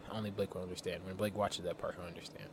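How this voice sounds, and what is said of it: Deep voice, sounds sick. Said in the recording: “My voice sounds so deep to me ... it does sound like you're sick”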